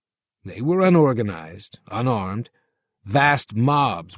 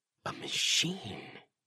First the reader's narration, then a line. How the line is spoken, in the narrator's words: Sylvia whispered, white-faced